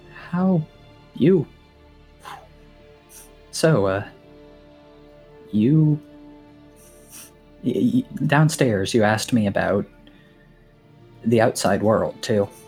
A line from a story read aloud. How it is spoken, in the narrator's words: Earthrendir, without looking up, still miming, sort of still miming, studying this thing, says in a very small voice